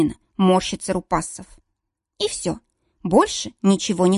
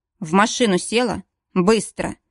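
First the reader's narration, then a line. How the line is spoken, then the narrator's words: Dry, curt. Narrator (Russian): проговаривает сухо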